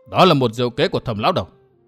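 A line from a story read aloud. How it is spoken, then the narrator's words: Stern young man. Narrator (Vietnamese): Thanh niên gầy gò nghiêm giọng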